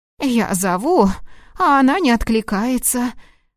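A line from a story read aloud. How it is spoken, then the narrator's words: Agitated exclamation. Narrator (Russian): Взволнованно воскликнула тетушка Маргарет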